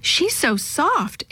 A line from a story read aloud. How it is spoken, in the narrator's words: exclaimed Yo-Yo